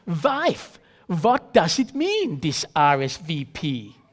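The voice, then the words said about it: Thick Borat-style accent. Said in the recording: “in his thick Borat-style accent”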